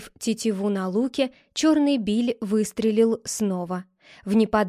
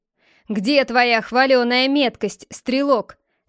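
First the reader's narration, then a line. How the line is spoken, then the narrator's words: Mocking. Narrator (Russian): спросил насмешливо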